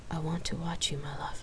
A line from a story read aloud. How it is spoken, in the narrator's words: she whispered sexily